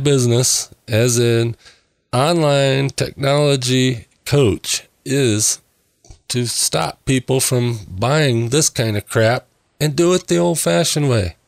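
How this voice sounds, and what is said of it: Slightly raspy voice. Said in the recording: “my voice is a little raspy tonight ... I'm having a little allergy attack tonight ... hopefully this doesn't sound too terrible”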